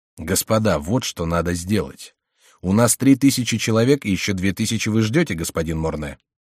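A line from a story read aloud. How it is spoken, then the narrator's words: Commanding. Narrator (Russian): повелительным тоном сказал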